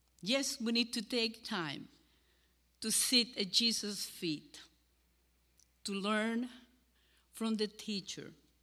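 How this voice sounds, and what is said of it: Cuban-accented English. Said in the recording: “my Cuban accent”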